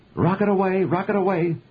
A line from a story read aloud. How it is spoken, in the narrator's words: Helen called out